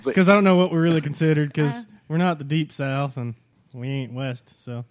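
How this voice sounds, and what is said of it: Oklahoma Mid-South American accent. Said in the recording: “you have much cooler accents... That's because we from the Mid-South... they're out of Oklahoma”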